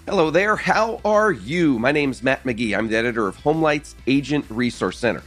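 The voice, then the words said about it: Strange, slightly off sick-sounding voice. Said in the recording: “You sound awful ... I apologize if my voice does sound strange. I'm fighting that cold sinus infection thing ... if I sound a little bit off today”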